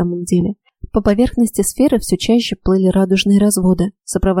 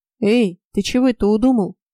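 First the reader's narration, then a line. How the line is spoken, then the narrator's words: Deep bass voice. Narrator (Russian): пробасил Фрей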